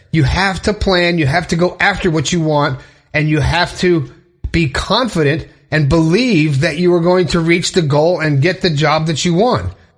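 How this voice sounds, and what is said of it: Breathless, fired-up speech. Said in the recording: “I'm getting all fired up here. I'm running out of breath”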